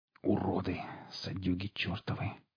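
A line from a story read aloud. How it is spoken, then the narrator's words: Hissed. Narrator (Russian): прошипел сталкер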